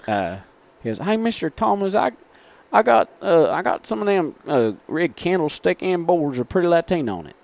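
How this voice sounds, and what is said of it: Imitated thick Southern accent. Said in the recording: “he's got a real thick Southern accent ... Can we hear his Southern accent?”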